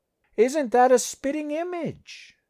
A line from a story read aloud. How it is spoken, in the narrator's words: the barker said, mock sweetly